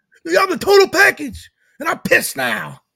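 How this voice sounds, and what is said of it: Imitates another person's voice. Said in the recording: “That's a pretty good impression”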